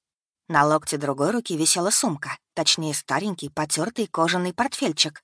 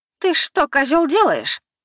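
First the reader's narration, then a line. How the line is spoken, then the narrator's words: Shrill, unpleasant high voice. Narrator (Russian): проговорила неожиданно высоким, неприятным, визгливым голосом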